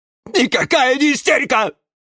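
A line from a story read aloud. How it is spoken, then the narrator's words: Angry barking. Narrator (Russian): рявкнул на нее Жорж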